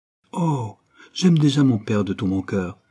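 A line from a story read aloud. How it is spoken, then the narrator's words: Girl cries out. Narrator (French): s'écria la jeune fille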